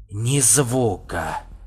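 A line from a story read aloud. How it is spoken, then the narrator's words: Low hoarse voice. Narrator (Russian): произнес низкий хриплый голос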